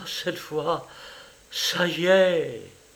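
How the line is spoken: Murmured. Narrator (French): elle murmura

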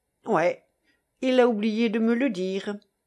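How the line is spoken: Hearty laughing retort. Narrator (French): répliqua le reporter en riant de tout son cœur

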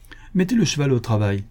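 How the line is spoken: Shouted. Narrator (French): cria Éloi à ses garçons

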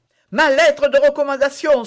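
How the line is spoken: Exclaiming. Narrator (French): s'écria D'Artagnan

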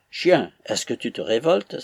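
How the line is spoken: Exclaimed. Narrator (French): s'écria-t-il

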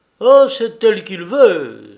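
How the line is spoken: Fisherman's realizing exclamation. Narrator (French): s'écria le pêcheur, qui comprit tout

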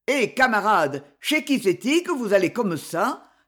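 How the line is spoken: Gruff, good-natured question. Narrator (French): demanda-t-il d'un ton de rude bonhomie

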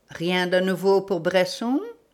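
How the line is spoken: Plain. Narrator (French): demanda Sholmès

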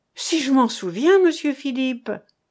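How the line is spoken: Exclaiming. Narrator (French): s'écria-t-elle

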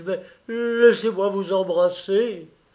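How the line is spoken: Exclamation. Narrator (French): s'écria-t-il

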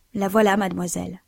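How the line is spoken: Low voice. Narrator (French): dit Annette d'une voix basse

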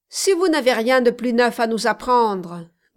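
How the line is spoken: Grumbled. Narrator (French): grommela Codelin

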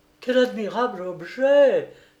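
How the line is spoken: Young woman exclaiming. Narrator (French): s'écria la jeune femme

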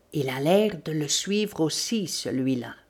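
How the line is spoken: Low voice. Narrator (French): Sholmès dit à voix basse

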